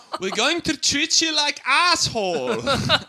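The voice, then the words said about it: Put-on German accent, a little scary. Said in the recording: “That was a good German accent. A little scary.”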